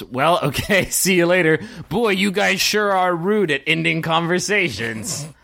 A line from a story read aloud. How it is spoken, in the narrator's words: Captain Bane yells